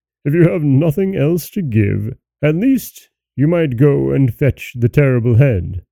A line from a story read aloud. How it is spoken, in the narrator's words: the rest of the company began to laugh at him, and the king said